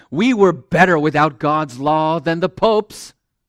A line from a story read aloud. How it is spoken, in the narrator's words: Frustrated with Tyndale, he blurted out